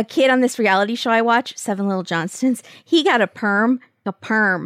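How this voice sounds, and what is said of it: Usual voice. Nothing is said of it.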